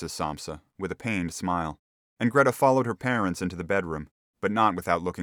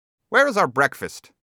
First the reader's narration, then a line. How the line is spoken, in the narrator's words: the middle gentleman asked the cleaner irritably